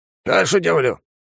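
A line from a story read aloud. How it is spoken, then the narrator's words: Suggesting. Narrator (Russian): предложил заводила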